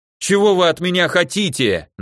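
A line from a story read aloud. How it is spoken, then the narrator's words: Hysterical shouting guard. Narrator (Russian): на грани нервного срыва кричал охранник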